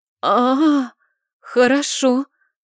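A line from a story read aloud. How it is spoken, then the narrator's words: Relieved exhale. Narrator (Russian): выдохнула с неким облегчением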